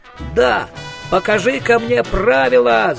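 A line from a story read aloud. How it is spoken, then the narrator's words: Furious yell. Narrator (Russian): заорал Коэн, приплясывая от ярости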